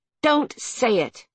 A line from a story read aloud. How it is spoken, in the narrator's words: she snapped